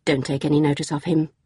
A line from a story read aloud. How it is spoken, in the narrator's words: Jackie said quickly